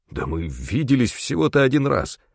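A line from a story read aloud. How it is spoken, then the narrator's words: Hoarse rasp. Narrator (Russian): прохрипел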